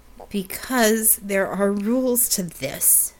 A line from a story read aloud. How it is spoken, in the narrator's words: she replied through clenched teeth